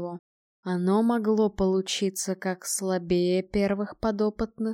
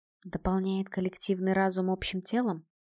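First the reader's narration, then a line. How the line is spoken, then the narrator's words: Quiet question. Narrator (Russian): тихо спросила Альда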